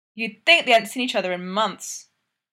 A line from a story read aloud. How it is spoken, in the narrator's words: Brooksy says loudly